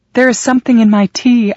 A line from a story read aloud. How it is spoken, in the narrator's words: I cried